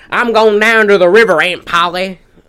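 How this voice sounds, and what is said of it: Put-on Southern accent. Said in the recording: “Southern Tom Sawyer ... He had an accent ... he talks like”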